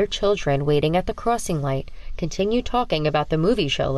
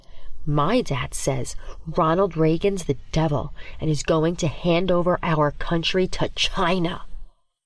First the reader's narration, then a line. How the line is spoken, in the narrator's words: He leans in close, whispering